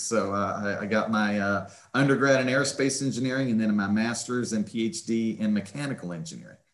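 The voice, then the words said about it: West Virginia accent. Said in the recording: “The accent, of course, is from West Virginia. ... I cannot shake that West Virginia accent.”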